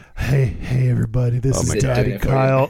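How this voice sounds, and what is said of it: Low put-on sexy voice. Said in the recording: “in my cool, sexy voice. ... low lawyer daddy voice ... It's a little different.”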